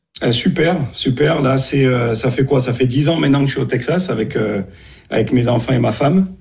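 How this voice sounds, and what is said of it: Texan-tinged Marseille French accent. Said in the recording (French): “tu as pris l'accent texan là quand tu nous parles ... l'accent texan mélangé avec l'accent marseillais”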